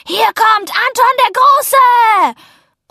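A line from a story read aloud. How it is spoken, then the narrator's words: Roaring. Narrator (German): Anton brüllte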